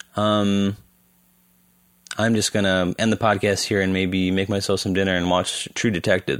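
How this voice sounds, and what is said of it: Weak, strained voice. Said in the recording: “My throat is not doing well. My voice is, it's really, not very strong today.”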